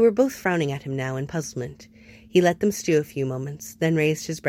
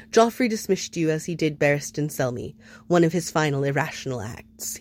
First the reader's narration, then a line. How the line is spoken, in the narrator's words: he added dryly